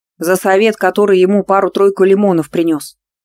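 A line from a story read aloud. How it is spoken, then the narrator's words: Smirking grunt. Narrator (Russian): хмыкнул Степаныч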